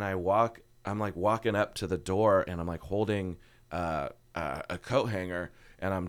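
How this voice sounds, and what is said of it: Usual voice. Nothing is said of it.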